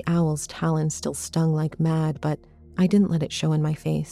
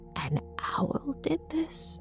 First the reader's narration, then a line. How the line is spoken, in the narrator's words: Mom gasped